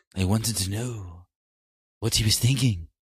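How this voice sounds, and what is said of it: Bad Littlefinger impression. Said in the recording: “That was a really bad Littlefinger impression.”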